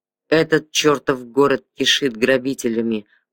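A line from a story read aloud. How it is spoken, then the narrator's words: Growl. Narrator (Russian): прорычал Виккерс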